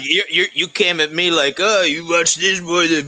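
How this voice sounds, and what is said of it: Imitates another person's voice. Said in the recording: “I'm actually doing an impression of you doing an impression of me doing an impression of you.”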